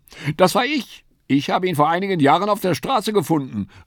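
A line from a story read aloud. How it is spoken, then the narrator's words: Lady's call. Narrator (German): rief die linke Dame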